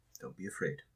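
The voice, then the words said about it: Quiet stage whisper. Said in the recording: “say it quietly, but stage whispering.”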